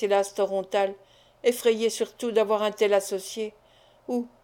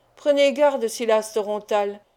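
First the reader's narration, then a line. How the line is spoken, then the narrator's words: Unrestrained menacing exclamation. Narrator (French): s'écria Sarkany d'un ton menaçant, sans se contraindre cette fois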